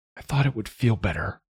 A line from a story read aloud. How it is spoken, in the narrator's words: she murmured